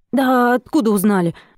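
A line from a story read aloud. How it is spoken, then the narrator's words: Grunting snort. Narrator (Russian): Васнецов снова хмыкнул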